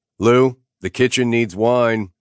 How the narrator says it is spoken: I bellowed at Naomi's father

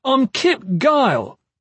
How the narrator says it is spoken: Kip shouted

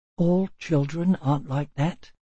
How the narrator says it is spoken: said softly

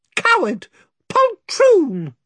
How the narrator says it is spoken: squeaked Weepycheep

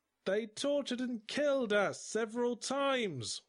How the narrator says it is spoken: wailed the dwarf from Slippery John's party

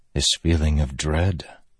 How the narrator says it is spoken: Dalinar whispered

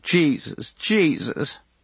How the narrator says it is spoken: coughing till her body rocked back and forth, and in between the coughs she whimpered

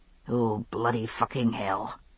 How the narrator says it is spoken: he muttered under his breath in English

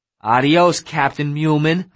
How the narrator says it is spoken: I shouted

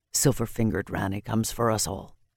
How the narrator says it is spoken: he said gruffly

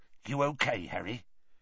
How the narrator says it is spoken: Hagrid muttered

